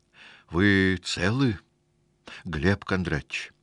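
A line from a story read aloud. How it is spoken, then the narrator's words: Breathless, fearful, respectful aide. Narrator (Russian): с почтительным страхом выдохнул референт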